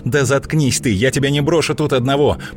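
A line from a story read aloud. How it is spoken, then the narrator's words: Shouted. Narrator (Russian): прокричала Злата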